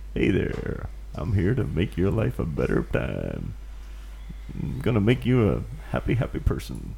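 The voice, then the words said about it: Upbeat motivational speaker voice. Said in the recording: “do a good impression of ... I should be like a motivational speaker”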